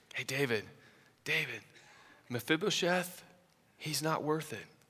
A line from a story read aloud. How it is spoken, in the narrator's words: you could just sort of hear the condescending tone as you read between the lines, that he may just be whispering, you know, to David